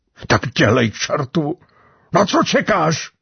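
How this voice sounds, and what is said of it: Hoarse, broken shouting voice. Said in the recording (Czech): “Rozkřikl se ... chraplavým, přerývaným hlasem”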